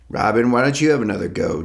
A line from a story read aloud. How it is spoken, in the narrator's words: Jack said, his grin almost a sneer